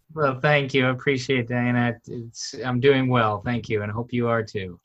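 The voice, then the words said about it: American accent. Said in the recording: “hear your American accent.”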